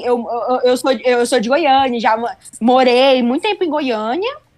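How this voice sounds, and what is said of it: Goiás regional Brazilian Portuguese accent. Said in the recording (Portuguese): “teu sotaque, ele é muito... Ai, é uma delícia... eu sou de Goiânia... a gente acaba pegando sotaque”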